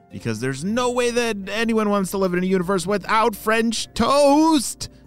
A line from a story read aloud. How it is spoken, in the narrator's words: shouted Oakley